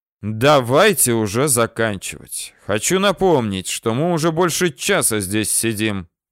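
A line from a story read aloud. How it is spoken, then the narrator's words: Displeased tone. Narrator (Russian): Недовольным тоном произнес обкомовец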